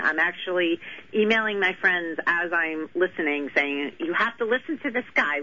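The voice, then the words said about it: New York accent. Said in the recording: “I knew I picked up. My hometown. ... Not too many people mistake the accent”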